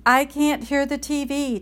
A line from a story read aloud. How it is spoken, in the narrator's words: Tide hollered